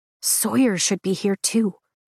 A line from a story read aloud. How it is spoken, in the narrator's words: I whisper to Rhi